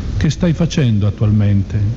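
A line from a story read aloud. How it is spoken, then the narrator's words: Plain. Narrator (Italian): chiese la Vergine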